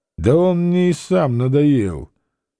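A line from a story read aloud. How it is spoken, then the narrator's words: Loud. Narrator (Russian): Овсей сказал громко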